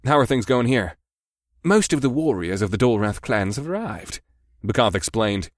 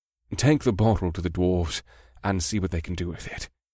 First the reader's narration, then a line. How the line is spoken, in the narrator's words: the Sinkari man said quietly to me